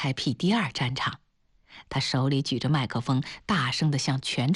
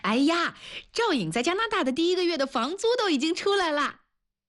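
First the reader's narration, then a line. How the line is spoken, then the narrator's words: Loud shouting. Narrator (Chinese): 他大声地嚷着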